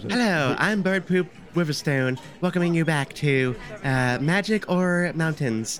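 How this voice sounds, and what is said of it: Impression of a lady host voice. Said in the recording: “that's my impression of a lady host”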